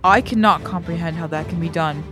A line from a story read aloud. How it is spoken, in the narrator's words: Dalinar said softly